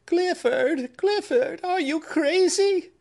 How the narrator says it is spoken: cried his sister

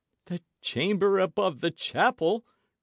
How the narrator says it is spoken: gasped the priest

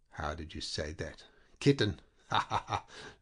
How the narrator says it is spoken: laughed Peyrol

